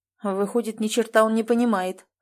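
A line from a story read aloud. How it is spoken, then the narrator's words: Snapping retort. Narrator (Russian): огрызнулся Виталий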